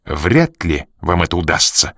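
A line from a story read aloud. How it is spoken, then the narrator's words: Irritated answer. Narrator (Russian): раздраженно ответил он, не скрывая дурного настроения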